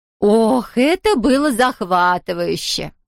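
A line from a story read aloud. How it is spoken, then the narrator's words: Sighing lady. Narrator (Russian): вздохнула госпожа Муценбахер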